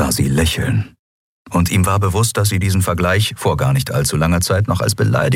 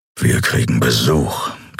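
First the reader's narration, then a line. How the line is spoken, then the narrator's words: Growling. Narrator (German): knurrte er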